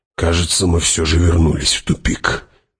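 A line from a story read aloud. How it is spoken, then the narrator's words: Sullen grumble. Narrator (Russian): угрюмо буркнул Хават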